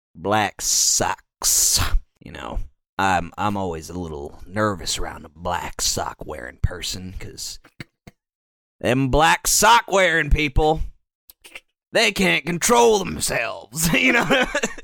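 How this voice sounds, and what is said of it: Slow drawling put-on southern accent. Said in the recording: “the racist voice is like ... with a southern accent. Just like savor every word.”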